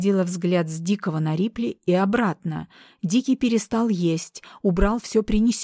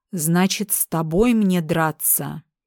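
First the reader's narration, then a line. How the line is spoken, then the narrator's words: Contemptuous hiss. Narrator (Russian): Дик презрительно прошипел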